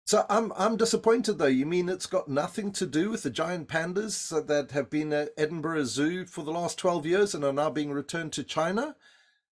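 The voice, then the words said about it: South African accent. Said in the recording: “With my South African accent”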